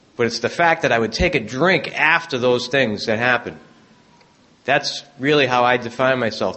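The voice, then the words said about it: Boston accent. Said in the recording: “as you can tell from my accent ... I did grow up in South Boston”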